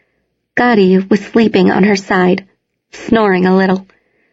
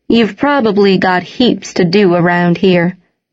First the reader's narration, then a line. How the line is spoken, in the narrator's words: Henry had said